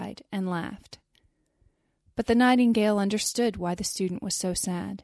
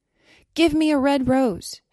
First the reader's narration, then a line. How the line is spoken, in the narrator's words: she cried